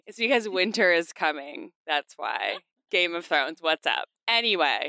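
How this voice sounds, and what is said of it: Nasal, congested voice. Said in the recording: “I sound a little nasally tonight ... because I have a cold.”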